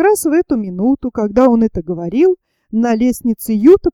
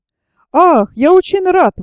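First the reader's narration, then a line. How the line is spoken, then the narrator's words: Exclaimed. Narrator (Russian): воскликнул незнакомец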